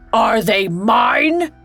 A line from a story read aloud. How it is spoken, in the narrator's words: He bellowed